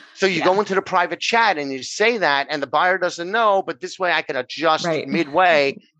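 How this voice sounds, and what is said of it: New York accent. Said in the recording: “I'm over here in New York, which if they haven't figured out by my accent, that's where I'm from”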